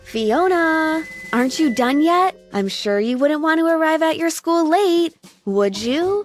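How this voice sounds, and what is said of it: Melodious, sing-song voice. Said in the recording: “in a melodious voice”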